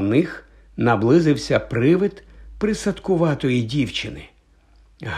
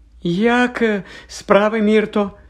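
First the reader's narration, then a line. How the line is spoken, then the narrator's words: Falsely cheerful question. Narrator (Ukrainian): нещирим радісним голосом запитала Герміона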